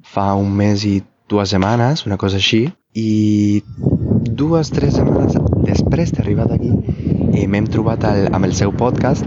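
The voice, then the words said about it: Non-native accent speaking Catalan. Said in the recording (Catalan): “no tinc la millor pronunciació, la, el, el millor accent”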